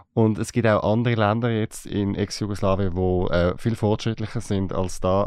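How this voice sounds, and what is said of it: Regional dialect. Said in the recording (German): “Dein Dialekt gefällt mir mega.”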